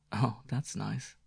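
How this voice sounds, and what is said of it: Smiling, warm voice. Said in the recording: “Her voice was smiling”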